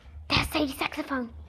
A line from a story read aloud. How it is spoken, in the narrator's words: Kirsty whispered